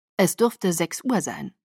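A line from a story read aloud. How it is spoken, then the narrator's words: Plain. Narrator (German): sagte Edward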